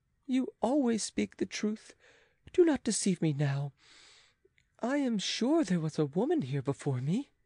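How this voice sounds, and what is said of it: Sorrowful pleading voice. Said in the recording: “in a sorrowful voice”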